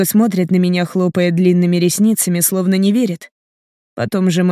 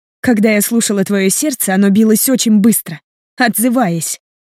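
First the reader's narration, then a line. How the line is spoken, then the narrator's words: Angry blurting. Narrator (Russian): зло выпаливает она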